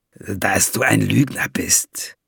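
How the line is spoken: Lowered voice. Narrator (German): gab Valiant mit gesenkter Stimme zurück

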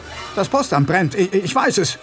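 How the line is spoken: Calling out. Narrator (German): rief er

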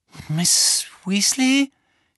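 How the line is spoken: Croaking. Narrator (German): krächzte Harry

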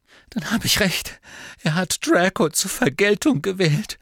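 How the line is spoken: Choked voice. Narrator (German): sagte Narzissa mit erstickter Stimme

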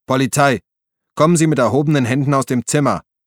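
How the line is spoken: Bellowing through cupped hands. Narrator (German): Er bildete mit den Händen einen Trichter vor dem Mund und brüllte

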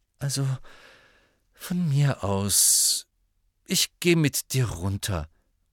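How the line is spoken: Sighing. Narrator (German): seufzte Ron

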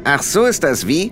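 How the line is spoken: Plain question. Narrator (German): fragte Rob irgendwer

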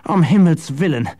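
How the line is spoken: Groan. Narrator (German): stöhnte Jasper

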